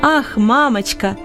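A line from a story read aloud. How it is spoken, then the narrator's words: Shouting. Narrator (Russian): кричал он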